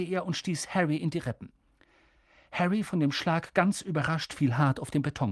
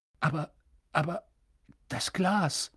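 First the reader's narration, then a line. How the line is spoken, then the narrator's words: Constant muttering to himself. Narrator (German): murmelte er ständig vor sich hin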